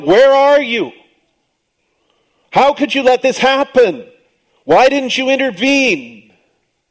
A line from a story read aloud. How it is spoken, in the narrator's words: we shout at God, and we cry out